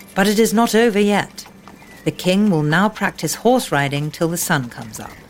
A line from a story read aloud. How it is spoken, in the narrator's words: said the guard